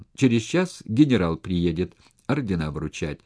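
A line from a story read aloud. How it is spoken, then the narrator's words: Cheerful. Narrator (Russian): все так же весело сказал Рябченко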